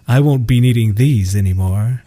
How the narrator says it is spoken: he said in a deep, fake romantic voice

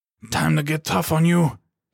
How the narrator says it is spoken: he growled

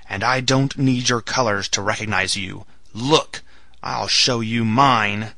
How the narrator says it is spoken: he shouted in his powerful voice

